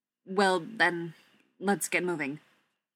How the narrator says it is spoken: Thorin said

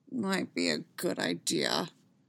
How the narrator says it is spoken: Khan mumbled

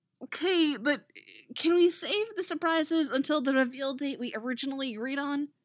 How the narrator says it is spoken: Artemis whimpers

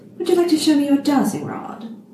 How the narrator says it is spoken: Anathema laughed throatily

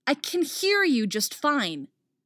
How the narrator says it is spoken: Artemis snaps

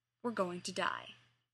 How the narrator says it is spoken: Shepard said gravely

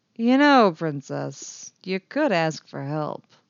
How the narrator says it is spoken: Han drawled

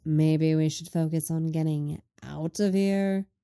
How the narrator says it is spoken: Lenny drawls

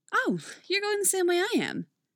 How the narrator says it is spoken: Megan says cheerfully

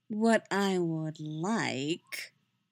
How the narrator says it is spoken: Yennefer drawls

